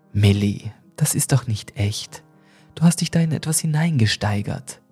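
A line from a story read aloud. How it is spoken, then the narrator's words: Gentle. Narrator (German): sagte sie sanft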